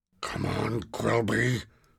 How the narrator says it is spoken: whispered Ash

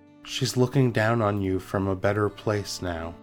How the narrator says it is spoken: so softly said

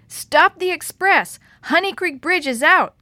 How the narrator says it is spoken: Kate shouted when she finally burst into the station house

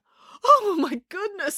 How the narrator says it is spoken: exclaimed Dad

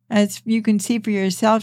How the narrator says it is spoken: said

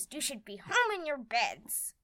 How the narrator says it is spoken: she snapped at us

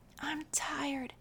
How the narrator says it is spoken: whispered Jonathan to Micah

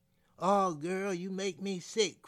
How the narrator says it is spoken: cried Willie James

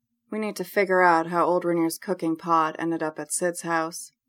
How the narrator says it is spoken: say quietly

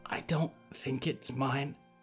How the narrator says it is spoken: Harrow whispered

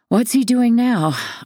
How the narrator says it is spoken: I say on the tail of a deep sigh

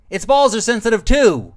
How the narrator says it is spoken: Rez shouted

